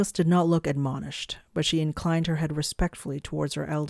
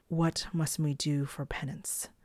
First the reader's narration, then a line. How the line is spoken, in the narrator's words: Morg said calmly, contritely